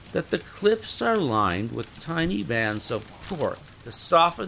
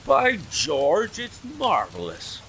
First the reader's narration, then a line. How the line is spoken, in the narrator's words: cried Hopkins in an ecstasy of admiration